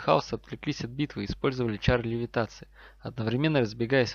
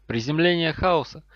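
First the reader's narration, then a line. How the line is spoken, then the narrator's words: Shouting. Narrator (Russian): Невилл крикнул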